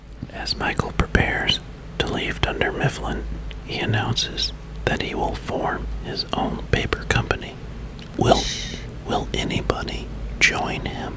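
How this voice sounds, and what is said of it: Whispered narration. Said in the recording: “whisper the summary to you? ... we could do this week with a whisper.”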